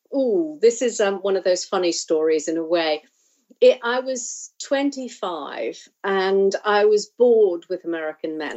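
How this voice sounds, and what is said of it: English-sounding accent. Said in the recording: “you have an English timbre to your voice”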